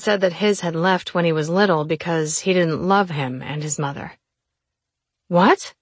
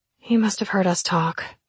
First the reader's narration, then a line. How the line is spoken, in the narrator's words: my sister muttered